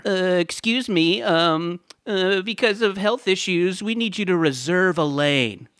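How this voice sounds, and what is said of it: Imitates a parks department official. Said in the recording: “This is my impression of the Parks Department.”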